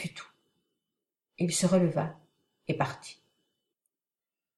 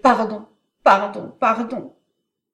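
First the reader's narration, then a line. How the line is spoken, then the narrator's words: Shouted. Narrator (French): cria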